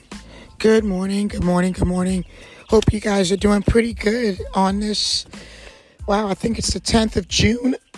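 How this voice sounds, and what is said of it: Voice affected, rough-sounding. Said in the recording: “Excuse my voice. It is allergies. Haven't had allergies like this”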